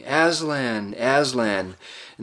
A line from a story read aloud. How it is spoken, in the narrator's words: gay rowans all bowed and rose again, shouting